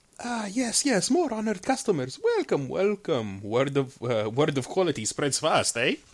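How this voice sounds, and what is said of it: Merchant character voice with accent. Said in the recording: “Oh my god, your accent.”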